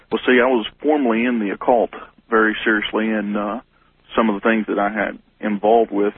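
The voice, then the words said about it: Southern American regional accent. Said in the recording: “judging from your accent, you're somewhere in the Bible Belt”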